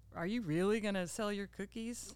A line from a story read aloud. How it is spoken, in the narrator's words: kind of chuckled and laughed and said